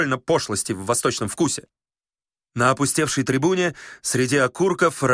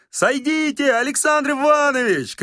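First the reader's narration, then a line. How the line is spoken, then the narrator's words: Shouting. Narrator (Russian): кричал Остап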